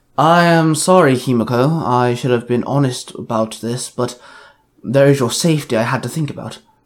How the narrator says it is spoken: Brohan sighed

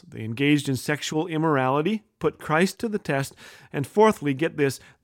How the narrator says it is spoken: they murmured

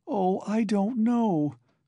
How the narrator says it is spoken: cried Sonia, almost in despair

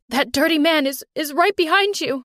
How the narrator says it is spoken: Mom screamed

